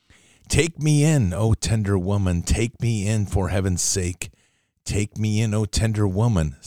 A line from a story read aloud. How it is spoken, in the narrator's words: sighed the snake